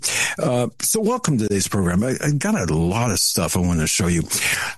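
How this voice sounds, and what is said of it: Slightly raspy voice. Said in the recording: “if my voice sounds a little bit raspy right now. It is”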